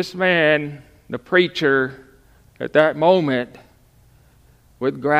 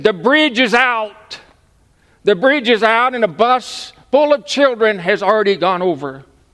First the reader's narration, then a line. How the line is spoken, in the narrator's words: This man was screaming